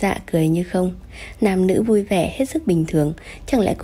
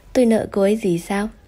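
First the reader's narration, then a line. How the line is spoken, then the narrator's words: Cold reproach. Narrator (Vietnamese): Tiêu Nhiên lạnh lùng chỉ trích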